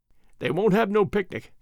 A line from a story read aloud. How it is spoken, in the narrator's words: went on Alfred, with a little chuckle